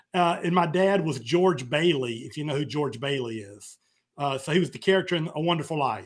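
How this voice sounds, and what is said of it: Sounds like a New York accent. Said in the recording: “I thought you were from New York with that accent.”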